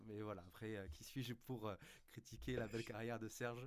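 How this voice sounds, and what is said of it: Sing-song regional French accent. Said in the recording (French): “avec ton accent chantant”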